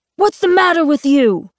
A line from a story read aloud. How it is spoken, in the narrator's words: He shouts